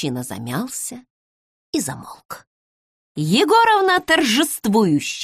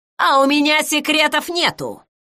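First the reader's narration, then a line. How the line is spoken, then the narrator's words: Shouting. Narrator (Russian): крикнула Егоровна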